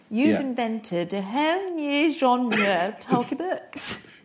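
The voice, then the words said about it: Naomi Campbell impression, half English-American. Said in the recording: “Let's try and do the voice, because it's sort of half English, half American.”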